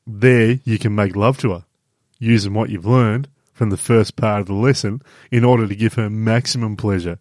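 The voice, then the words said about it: Character voice for Rob. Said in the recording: “I'm trying to do the Rob voice now.”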